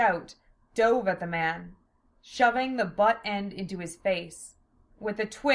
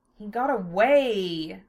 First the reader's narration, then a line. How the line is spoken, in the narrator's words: Lena moaned